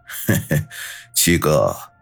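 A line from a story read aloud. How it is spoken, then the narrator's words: Forced chuckle. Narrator (Chinese): 李九嘿嘿干笑两声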